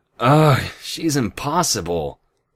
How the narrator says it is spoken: with a moan

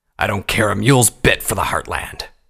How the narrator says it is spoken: Vanguard snapped

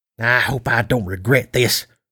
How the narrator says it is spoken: she muttered

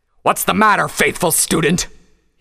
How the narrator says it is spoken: He roared at her

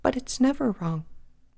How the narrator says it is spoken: Pinky said quietly

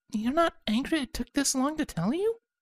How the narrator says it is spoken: Scarlet asked nervously

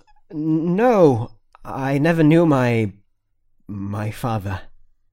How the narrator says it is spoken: I choked out

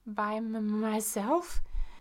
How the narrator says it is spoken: I stammered as I considered the weight of such an assignment

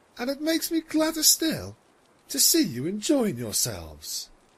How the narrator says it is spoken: Luna smiled warmly and continued

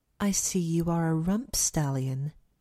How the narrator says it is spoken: she purred

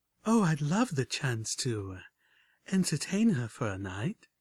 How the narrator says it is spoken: purred Homage back

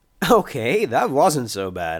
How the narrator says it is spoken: I said with a laugh

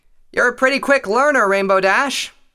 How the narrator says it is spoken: Tailwind called out from the ground

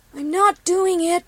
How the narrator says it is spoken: Copper called down towards Lemon Dreams, her voice shaky with nerves

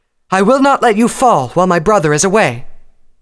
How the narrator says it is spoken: The nearby legionnaires shouted in unison

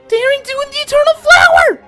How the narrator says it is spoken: Twilight shrieked excitedly

